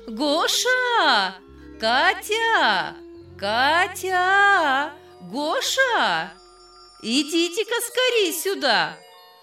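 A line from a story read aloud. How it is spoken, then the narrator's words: Calling in a high singsong voice. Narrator (Russian): она своим певучим высоким голосом звала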